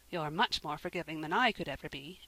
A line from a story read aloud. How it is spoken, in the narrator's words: Anne said, rather crossly